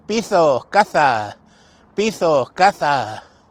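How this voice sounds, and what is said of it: Village accent turning S into Z. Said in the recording (Spanish): “Con ese acento. ... Convirtiendo las S en Z”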